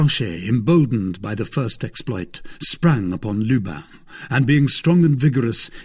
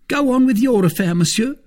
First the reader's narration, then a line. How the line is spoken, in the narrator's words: cried Planchet